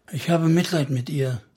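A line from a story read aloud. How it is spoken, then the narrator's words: Sad. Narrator (German): sagte sie traurig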